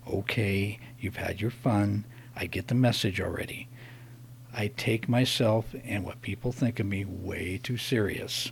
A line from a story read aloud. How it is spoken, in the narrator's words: I gritted my teeth, and under my breath I said